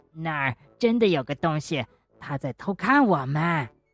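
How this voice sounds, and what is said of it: Quiet, hushed speaking. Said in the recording (Chinese): “小声”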